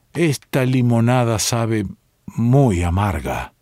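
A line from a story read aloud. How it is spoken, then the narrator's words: Thick slurred voice. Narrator (Spanish): dijo con voz pastosa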